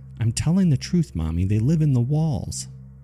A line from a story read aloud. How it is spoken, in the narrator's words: My sister pleaded